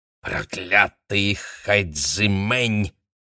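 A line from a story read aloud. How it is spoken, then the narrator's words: Angry hiss. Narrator (Russian): злобно прошипела заклинательница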